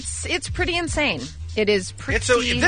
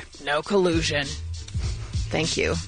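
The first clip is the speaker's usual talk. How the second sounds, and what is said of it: Imitates another person's voice. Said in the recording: “pretty good, ... really good ... impersonation”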